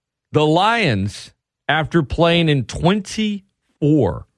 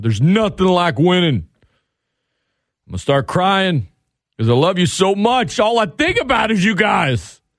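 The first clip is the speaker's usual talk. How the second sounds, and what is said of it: Dan Campbell impression. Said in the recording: “my Dan Campbell impression”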